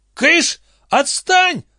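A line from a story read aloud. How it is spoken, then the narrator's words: Yelling. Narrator (Russian): заорал Лестер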